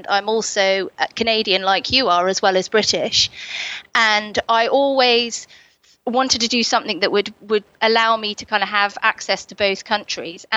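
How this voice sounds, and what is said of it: Strong English accent. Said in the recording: “my very English accent”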